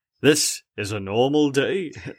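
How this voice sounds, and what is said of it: Imitates another person's voice. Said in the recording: “Why do I keep trying to do his voice? ... You keep going to Tom Jones.”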